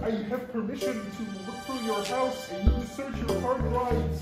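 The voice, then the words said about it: Kermit the Frog character voice. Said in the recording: “doing an impression. ... This one's called Kermit with a Permit.”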